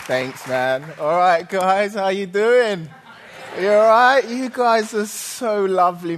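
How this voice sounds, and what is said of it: English accent. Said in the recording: “taught with an English accent”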